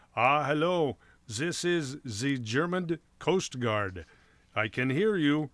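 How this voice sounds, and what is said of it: Put-on German accent. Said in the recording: “speaking with a German accent”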